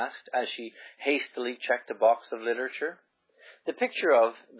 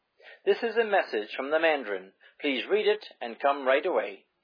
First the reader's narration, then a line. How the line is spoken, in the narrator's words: he cried